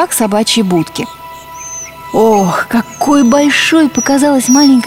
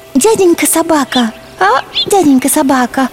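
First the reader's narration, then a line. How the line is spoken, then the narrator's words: Timid. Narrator (Russian): робко начала она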